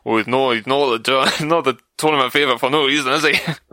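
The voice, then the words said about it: Imitated Scottish accent. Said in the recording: “say that in John Higgins' accent ... He's not that Scottish”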